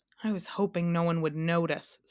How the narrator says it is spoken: said the king sadly

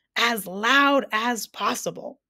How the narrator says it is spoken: bellowed the doctor

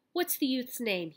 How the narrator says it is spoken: asked

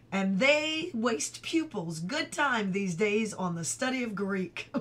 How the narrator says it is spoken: Pleased by his story's great success, Uncle Jack chuckled, and said

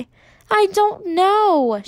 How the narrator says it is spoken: said, her voice choked

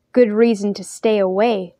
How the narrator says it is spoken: grumbled Daniel

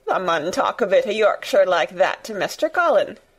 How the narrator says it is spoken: Dickon chuckled

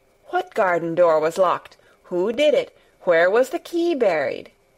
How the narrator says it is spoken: exclaimed, as if he were suddenly very much interested

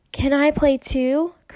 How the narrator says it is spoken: Kirsty asked

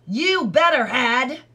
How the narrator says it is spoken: the other flew into a rage, shrieking coarsely

